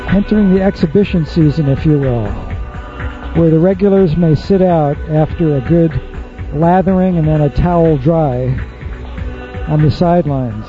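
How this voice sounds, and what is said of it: Digitally processed radio voice. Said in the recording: “this is my radio voice. Computer digitally remastered and augmented”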